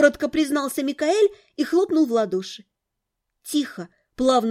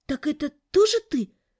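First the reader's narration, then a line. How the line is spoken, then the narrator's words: Matter-of-fact exhale. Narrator (Russian): Уже не удивляясь, а просто констатируя факт, выдохнула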